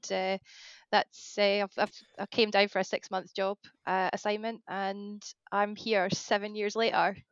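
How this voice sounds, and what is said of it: Non-local regional UK accent. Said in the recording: “as you can probably tell by the accent, not really from this area”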